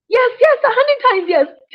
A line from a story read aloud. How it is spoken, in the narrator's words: shouted Skunk